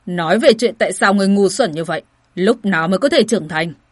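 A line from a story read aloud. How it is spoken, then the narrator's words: Angry. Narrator (Vietnamese): tức giận nói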